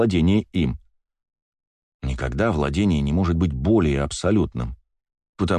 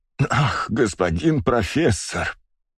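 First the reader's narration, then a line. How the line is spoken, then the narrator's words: Moan. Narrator (Russian): простонал он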